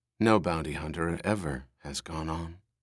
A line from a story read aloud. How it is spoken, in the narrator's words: Rachel said